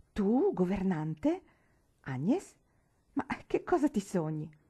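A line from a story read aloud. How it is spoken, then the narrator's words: Astonished exclamation. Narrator (Italian): A mia sorella per lo stupore ed esclamò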